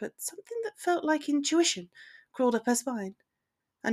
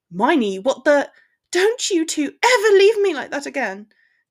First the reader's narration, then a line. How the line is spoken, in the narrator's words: she snapped